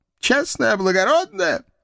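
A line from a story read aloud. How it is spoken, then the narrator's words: Sobbing. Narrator (Russian): всхлипнул он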